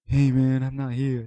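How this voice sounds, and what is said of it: Imitates another person's voice. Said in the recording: “my really bad Al impression”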